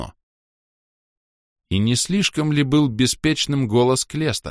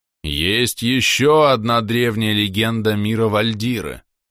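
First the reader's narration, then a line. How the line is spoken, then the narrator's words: Sepulchral voice. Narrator (Russian): загробным голосом начал я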